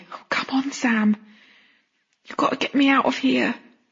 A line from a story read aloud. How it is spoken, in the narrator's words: the boy groaned